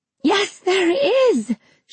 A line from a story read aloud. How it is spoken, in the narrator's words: she screamed, tearing at her hair